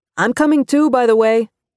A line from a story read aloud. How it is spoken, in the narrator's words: Ramon shouted from the fryer